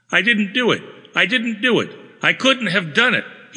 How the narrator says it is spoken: he would scream, his eyes staring

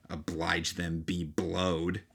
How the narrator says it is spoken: Stanley Judkins, who was heard to mutter

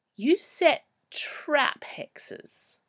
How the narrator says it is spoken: moaned

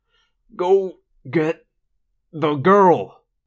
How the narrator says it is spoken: he said through gritted teeth

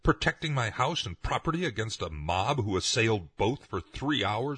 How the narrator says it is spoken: he cried

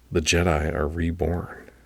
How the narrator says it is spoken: whispered

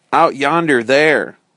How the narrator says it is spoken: cried Friday

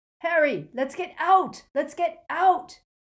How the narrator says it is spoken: bellowed Ron

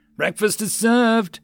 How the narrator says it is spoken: The Marine's door gunner gleefully yelled

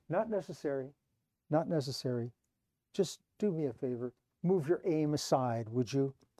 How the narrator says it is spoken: said calmly

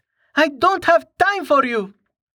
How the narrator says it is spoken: she shouted

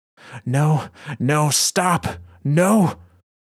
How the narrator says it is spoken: Shayura howls, fighting against the pull of the thrall

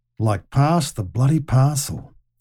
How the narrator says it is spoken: he muttered

